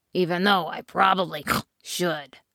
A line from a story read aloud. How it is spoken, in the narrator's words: snorted the pig